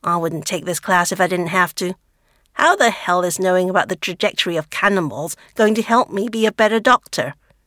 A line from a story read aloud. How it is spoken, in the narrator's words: Anne grumbles